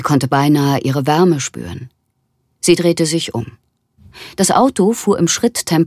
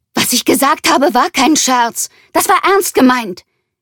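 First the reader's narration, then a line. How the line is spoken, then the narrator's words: Shouted. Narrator (German): schrie sie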